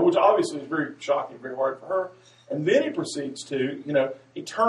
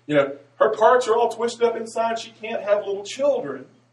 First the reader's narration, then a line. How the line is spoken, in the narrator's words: tells the congregation very loudly in a very grandiose voice